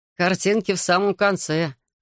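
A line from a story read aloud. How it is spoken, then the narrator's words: Laughing. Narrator (Russian): рассмеялся Майка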